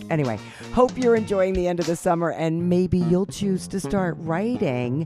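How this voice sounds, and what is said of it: Deep, congested voice from a cold. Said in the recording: “I have some kind of summer cold ... this deep voice? It's nice to have a deep voice.”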